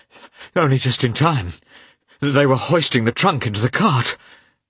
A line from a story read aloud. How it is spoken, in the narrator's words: he gasped